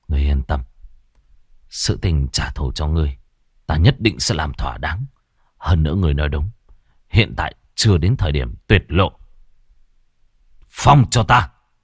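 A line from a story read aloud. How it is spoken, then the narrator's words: Grieving mutter. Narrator (Vietnamese): hai mắt của Bạch Tử Cống hiện lên đau xót, lẩm bẩm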